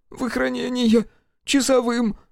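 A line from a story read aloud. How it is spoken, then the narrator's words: Sobbing youth. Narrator (Russian): всхлипнул паренек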